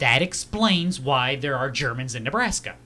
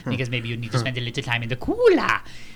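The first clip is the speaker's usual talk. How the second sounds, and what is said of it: Menacing German movie-villain accent. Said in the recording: “whenever there's more Germans ... What accent does the bad guy have? ... if we need to have the villain in the film, we will always give him this voice ... It is not French-German”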